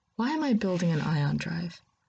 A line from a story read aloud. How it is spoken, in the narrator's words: He sighs